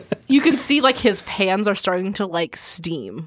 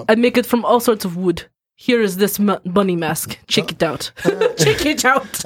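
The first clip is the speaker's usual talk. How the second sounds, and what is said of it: Put-on Russian accent. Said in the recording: “This is my horrible Russian accent ... It's actually not bad.”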